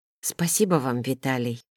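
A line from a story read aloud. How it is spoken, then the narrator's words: Quiet. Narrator (Russian): негромко сказала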